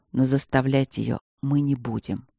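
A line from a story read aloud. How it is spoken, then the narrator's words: Calm grumble. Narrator (Russian): уже умиротворенно проворчал мужчина-пламя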